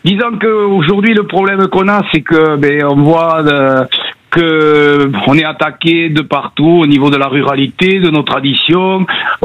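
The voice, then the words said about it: Southwestern French accent. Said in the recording (French): “je vous appelle du sud-ouest, pas loin de Toulouse ... on a un petit accent. ... L'accent vous a trahi.”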